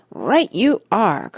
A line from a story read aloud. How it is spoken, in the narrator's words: cried Mr